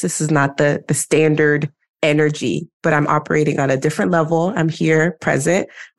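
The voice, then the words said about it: Sick-sounding, low-energy voice. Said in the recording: “I am not feeling well today. I know you can hear it in my voice.”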